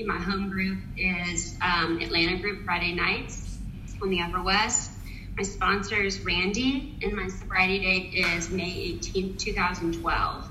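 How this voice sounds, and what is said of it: Slight Southern American accent. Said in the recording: “I'm from Nashville, Tennessee, so you may hear a little Southern accent poking through sometimes”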